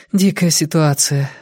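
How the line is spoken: Sighing. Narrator (Russian): вздохнула Вера

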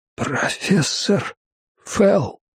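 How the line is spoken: Trembling whisper. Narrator (Russian): дрожащим шепотом ответил Арчер

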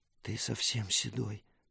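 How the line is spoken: Whispered. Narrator (Russian): прошептала Мира

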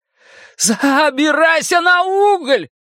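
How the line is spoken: Shout. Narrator (Russian): прокричал Билл

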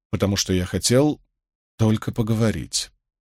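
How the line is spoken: Quiet repetition. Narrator (Russian): тихо повторил Мэтью

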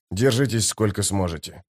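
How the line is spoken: Whisper. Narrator (Russian): прошептал Дукер

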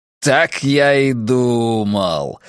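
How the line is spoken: Jubilant. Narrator (Russian): ликующим тоном произнес Филипп

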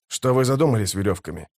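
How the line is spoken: Plain. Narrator (Russian): спросил Дукер

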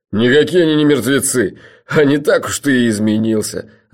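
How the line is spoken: Laughing loudly. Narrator (Russian): расхохотался Джуфин

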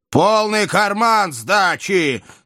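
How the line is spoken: Angry driver's shout. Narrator (Russian): заорал шофер

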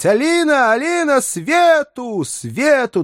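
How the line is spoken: Very loud echoing shouts. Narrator (Russian): Да так громко, что крики его отозвались во всех углах обширных сеней дома

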